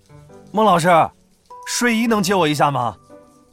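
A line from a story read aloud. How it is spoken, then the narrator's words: Calling out. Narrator (Chinese): 周林喊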